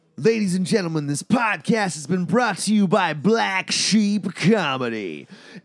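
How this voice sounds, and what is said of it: Announcer voice. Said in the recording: “my own announcer voice”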